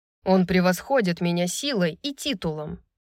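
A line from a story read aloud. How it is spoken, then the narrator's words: Angry. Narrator (Russian): напомнил Рун, сердито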